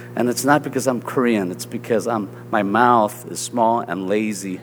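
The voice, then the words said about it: Southern American accent. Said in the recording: “they'll pick up my southern accent, you know, I say, it's because I don't enunciate my words”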